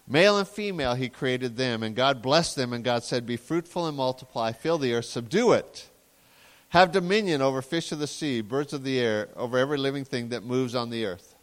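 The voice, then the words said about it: Reading very quickly. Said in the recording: “I read that very quickly.”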